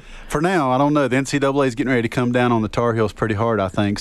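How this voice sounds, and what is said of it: North Carolina accent. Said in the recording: “where's that accent from? ... North Carolina. I try to hide it, but there's no way I can. ... There's no hiding that.”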